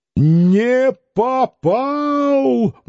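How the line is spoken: Wailing wolfish howl. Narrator (Russian): взвыл он плачевным волчьим воем

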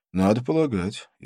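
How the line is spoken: Laughing. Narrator (Russian): рассмеялся

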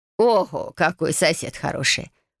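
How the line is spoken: Surprised chuckle, grandmother. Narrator (Russian): хмыкнув, удивилась бабушка

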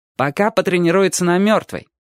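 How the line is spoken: Cheerful reply. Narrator (Russian): бодро отвечал Чик

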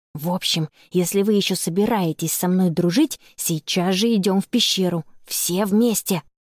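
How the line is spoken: Firm whispered decree. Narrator (Russian): Шепотом постановила Анна

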